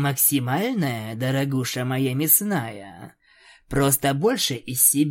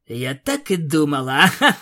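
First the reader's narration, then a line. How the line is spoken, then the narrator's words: Laughing. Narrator (Russian): Рассмеявшись, Аланис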